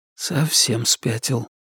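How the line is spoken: Quiet mutter, echoing. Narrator (Russian): тихо пробормотал Ричард, но эхо тут же разнесло его слова по всему туннелю

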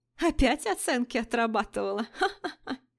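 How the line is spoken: Mocking giggle from behind. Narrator (Russian): Послышалось хихиканье за моей спиной

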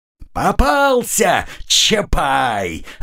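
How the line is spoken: Joyful yelling. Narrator (Russian): радостно заорала фурия

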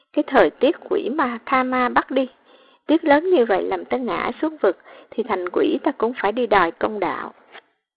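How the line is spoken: Shivering, cursing. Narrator (Vietnamese): Cả người hắn run run, ngoài miệng thì mắng

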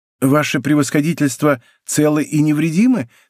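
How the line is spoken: Plain question, host. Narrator (Russian): спросил хозяин

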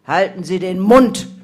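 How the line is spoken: Bellowed. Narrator (German): brüllte er

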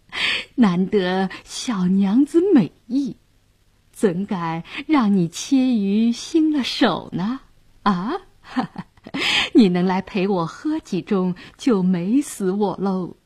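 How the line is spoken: Leering laugh. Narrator (Chinese): 杨衙内色眯眯地笑道

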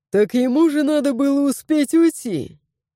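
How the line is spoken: Short laugh. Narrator (Russian): хохотнул Гаррет

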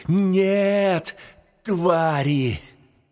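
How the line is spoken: Loud desperate grief-stricken shout. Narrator (Russian): захлестнула такая волна горя и ненависти, что он громко и отчаянно закричал

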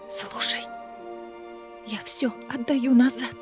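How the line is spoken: Whispering. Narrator (Russian): прошептала Неста

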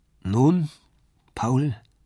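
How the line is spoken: Sad question. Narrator (German): fragte traurig

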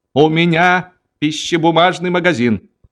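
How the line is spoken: Yelling. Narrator (Russian): он вопил

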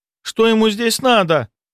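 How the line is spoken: Frightened exclamation. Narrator (Russian): Испуганно воскликнула Лида

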